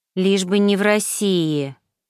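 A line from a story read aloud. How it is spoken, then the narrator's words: Italian woman grumbling. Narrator (Russian): пробурчала итальянка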